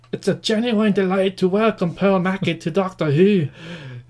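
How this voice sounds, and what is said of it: Put-on Scottish accent. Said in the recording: “try it in the Scottish accent ... if you like my Scottish accent”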